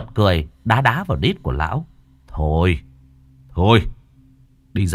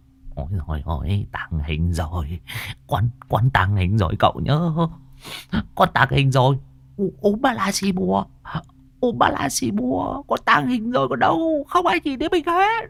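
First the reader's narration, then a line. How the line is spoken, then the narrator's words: Old man muttering. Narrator (Vietnamese): Tiếng của lão vẫn còn lẩm bẩm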